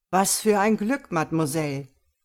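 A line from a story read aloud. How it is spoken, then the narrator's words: Magician calling out. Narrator (German): rief der Zauberkünstler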